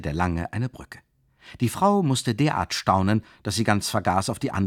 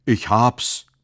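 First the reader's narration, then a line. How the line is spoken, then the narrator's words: Sudden exclamation. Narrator (German): rief er plötzlich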